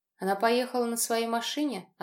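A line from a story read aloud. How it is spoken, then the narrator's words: Curt, suppressed fear. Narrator (Russian): отрывисто спросил я, игнорируя темный липкий страх, подбирающийся к самому горлу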